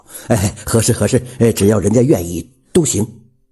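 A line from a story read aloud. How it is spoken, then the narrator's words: Ingratiating, smiling. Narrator (Chinese): 李广田就陪着笑表态说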